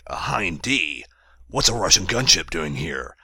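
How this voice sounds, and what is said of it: High-pitched gravelly Solid Snake impression. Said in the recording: “do my Big Boss impression, or my Solid Snake ... that sort of high-pitched, gravelly thing”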